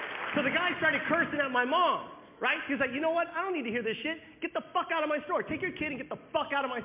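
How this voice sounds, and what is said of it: Usual voice. Nothing is said of it.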